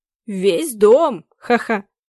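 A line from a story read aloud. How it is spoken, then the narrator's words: Said laughing. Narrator (Russian): сказал господин Цинкевич и засмеялся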